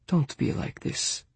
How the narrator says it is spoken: her father pleaded, his voice falling to a whisper

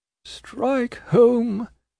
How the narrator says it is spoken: murmured Mr

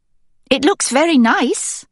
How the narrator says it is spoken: she says, her voice too bright

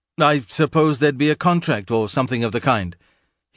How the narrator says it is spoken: as Mark stammered, so that when he finally blurted out

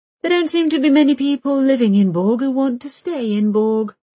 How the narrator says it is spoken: so she states dryly

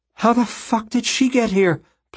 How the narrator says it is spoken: Plum gasped

